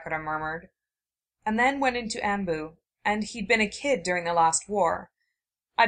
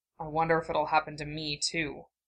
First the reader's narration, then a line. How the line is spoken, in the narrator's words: led him to mutter